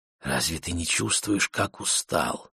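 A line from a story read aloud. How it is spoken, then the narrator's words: Whisper. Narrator (Russian): прошептала она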